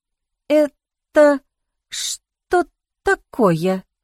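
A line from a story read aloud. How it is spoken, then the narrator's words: Stammering, forced out. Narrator (Russian): запинаясь, выдавила я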